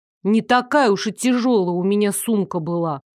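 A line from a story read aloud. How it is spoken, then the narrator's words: Awkward grumble. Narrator (Russian): буркнула я, не зная, что еще сказать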